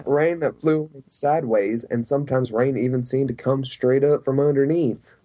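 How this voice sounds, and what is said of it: Imitation with a southern twang. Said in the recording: “you were really putting in that southern twang, which actually didn't sound all that bad”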